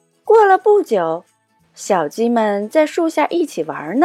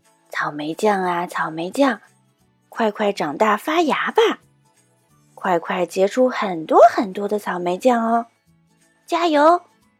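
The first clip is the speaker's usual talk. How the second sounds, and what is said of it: Speaking softly, hushed. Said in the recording (Chinese): “小声”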